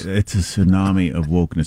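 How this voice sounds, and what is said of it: Flat monotone imitation of another person. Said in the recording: “You can't be flat enough to do a Sam Harris impersonation. I mean, it's got to be completely the same note.”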